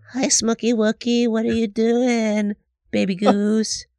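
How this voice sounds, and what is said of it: Cutesy baby voice. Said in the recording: “is he still doing baby voice? ... put on a little voice”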